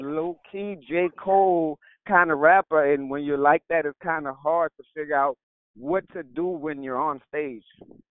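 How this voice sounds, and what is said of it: New Orleans accent. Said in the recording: “I love your accent. Are you from New Orleans?”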